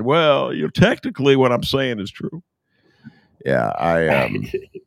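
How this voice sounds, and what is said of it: Bill Clinton impression. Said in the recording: “that's a pretty good Clinton imitation”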